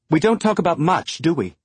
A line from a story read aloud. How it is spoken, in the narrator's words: she snapped, surprised by the bite in her voice